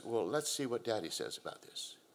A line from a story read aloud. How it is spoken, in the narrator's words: mother calmly says